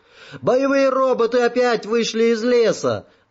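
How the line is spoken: Shouting. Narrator (Russian): закричал человек

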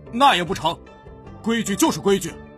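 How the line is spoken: Loud, parroting. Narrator (Chinese): 家将鹦鹉学舌，声音洪亮地说

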